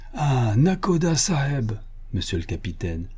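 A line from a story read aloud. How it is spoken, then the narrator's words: Excited exclaiming. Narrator (French): s'écria Tirubala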